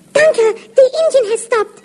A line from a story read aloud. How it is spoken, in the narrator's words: Jacker cried